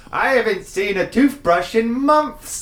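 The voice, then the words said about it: Put-on British accent. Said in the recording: “my impression of a British person”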